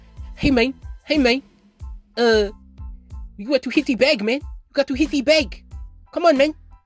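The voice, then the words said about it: Exaggerated bad Mexican accent. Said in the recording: “that is a terrible, terrible Mexican accent”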